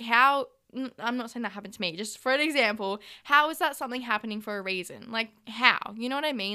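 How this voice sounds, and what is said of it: Usual voice. Nothing is said of it.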